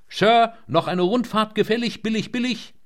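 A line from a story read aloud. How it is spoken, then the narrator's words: Loud encouraging call. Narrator (German): Aufmunternd rief laut auf Englisch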